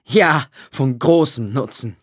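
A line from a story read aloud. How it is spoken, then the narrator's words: Sudden laughing. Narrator (German): lachte Kovrin plötzlich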